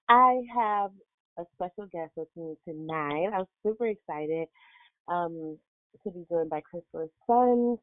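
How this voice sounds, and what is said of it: Voice sounds a bit off. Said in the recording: “I just woke up from a nap, so my voice sounds a little bit crazy, but it will clear up”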